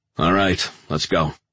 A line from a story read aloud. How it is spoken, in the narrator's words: he said to Aguilar, making sure his voice showed as little respect as possible